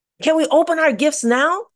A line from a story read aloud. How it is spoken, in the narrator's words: some boys and girls said impatiently